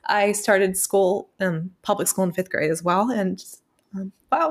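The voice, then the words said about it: Tearful, emotional voice. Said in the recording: “Oh my gosh, I'm getting emotional thinking about it ... Why am I crying now? I was like crying ... I didn't think I was going to cry. I'm sorry.”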